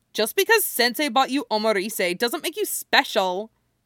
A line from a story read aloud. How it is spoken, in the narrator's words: she snaps